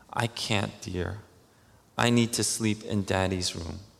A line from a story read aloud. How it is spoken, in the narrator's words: smiling, said very tenderly